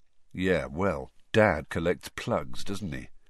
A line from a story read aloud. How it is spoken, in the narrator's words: said Fred, quietly